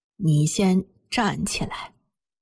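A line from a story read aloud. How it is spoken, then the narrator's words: Sighing, slow trembling voice. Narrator (Chinese): 马奶奶长长地叹了一口气，缓缓地用颤抖的声音说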